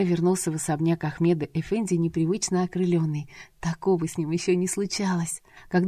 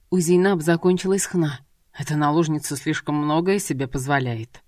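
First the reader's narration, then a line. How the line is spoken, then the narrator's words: Grumbling. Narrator (Russian): проворчал Ибрагим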